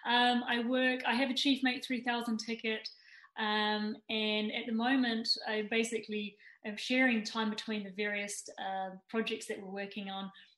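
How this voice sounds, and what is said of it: New Zealand accent. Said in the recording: “you can probably tell from my accent that I hail from New Zealand ... the accent can become a little confused”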